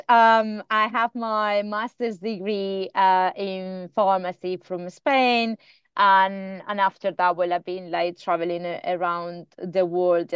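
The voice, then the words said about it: Spanish-accented English. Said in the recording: “I can tell you have an accent. ... No, so I'm in Spanish.”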